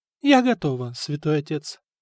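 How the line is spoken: Calm reply. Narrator (Russian): спокойно ответила Анна

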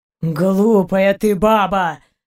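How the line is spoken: Groan. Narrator (Russian): простонал Заури

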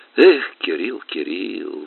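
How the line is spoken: Sigh. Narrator (Russian): вздохнул Маргун

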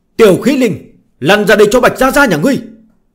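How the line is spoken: Excited loud shout. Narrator (Vietnamese): Bạch Tiểu Thuần phấn chấn, cất cao giọng, hét lớn một tiếng

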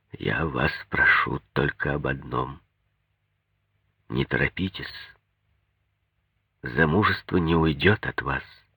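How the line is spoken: Dull, muffled voice. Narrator (Russian): заговорил глухо

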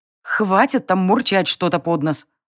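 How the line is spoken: Growl. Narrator (Russian): рыкнула я

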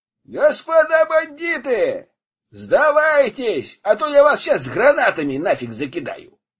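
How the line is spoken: Shout. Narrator (Russian): крикнул

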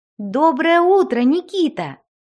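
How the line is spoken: Cheerful call. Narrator (Russian): весело позвала фея

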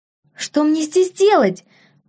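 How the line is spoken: Near shout, young woman. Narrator (Russian): почти закричала девушка

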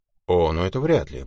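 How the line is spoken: Grumbled. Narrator (Russian): буркнула Шерон

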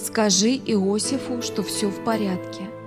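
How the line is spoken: Weak voice. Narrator (Russian): сказал Билл слабым голосом

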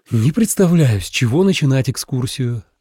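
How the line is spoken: Sighed. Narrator (Russian): вздохнул Миша

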